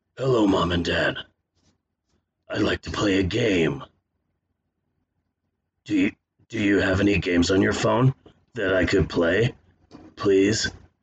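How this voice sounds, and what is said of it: Horror villain voiced as young child. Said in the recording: “my impression of Jigsaw if he was an 8-year-old child”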